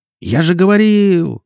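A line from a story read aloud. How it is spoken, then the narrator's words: Yell. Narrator (Russian): завопил Никита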